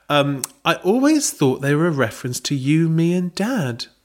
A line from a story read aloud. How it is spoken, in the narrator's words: Belinda said sweetly